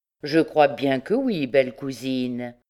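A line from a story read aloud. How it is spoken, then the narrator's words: Plain. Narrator (French): dit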